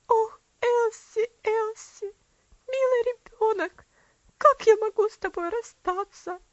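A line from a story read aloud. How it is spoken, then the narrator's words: Muffled, sobbing man. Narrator (Russian): Мистер Динсмор спрятал лицо, и все тело его сотрясалось от внутренних рыданий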